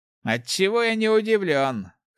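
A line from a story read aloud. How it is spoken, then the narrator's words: Wry snort. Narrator (Russian): хмыкнул Руди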